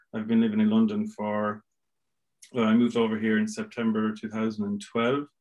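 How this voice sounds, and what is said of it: Irish accent. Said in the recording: “You may have guessed from the accent, I'm originally Irish.”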